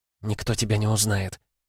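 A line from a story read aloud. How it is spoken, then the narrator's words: Whisper. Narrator (Russian): шепнула она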